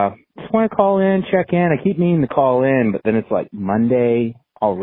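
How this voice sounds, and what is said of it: Usual voice. Nothing is said of it.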